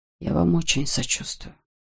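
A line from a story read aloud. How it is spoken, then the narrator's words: Whispered. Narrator (Russian): прошептал он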